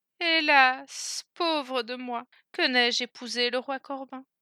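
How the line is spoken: Sighing woman. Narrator (French): soupira-t-elle encore

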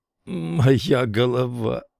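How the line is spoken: Groaning. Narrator (Russian): простонал он

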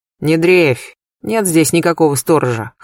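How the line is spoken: Snorting. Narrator (Russian): хмыкнул Сергей Львович

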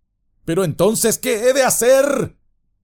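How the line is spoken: Shouting again. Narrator (Spanish): gritó de nuevo

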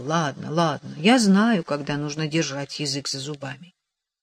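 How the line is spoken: Meek mutter. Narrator (Russian): Теперь он смиренно пробормотал

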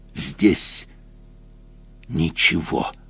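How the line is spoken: Monstrous hiss. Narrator (Russian): прошипело чудовище

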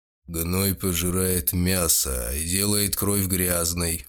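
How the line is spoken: Gloomy, displeased. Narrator (Russian): мрачно произнес господин Эй, недовольный тем, что его застали за тем, что он предпочел бы скрыть

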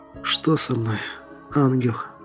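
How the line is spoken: Quiet sobbing. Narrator (Russian): Тихо всхлипывая произнес я

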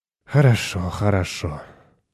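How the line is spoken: Sighing. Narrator (Russian): вздохнул Полин

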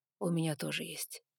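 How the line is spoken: Quiet confirmation. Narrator (Russian): подтвердил он тихо

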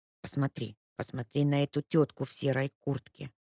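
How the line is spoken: Whisper. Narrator (Russian): прошептала она

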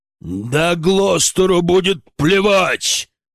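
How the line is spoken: Barking shout. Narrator (Russian): гаркнул Державин

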